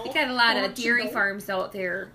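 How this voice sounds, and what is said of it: Put-on Wisconsin-style accent. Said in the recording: “That was a good accent... Your accents are so good.”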